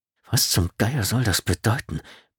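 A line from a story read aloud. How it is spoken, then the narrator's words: Grumbling mutter. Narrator (German): brummelte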